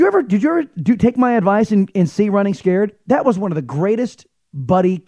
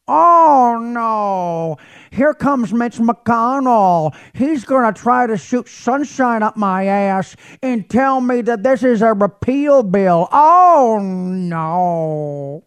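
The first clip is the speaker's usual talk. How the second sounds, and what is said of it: Imitates another person's voice. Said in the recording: “I'm imitating Billy Crystal doing one of the characters from that movie.”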